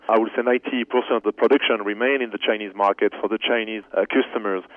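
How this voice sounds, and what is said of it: Slight French accent. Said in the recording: “they detect a little bit of an accent, and you're actually from France originally ... my French accent.”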